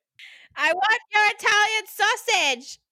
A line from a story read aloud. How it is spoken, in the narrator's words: Steve screeched like a bald eagle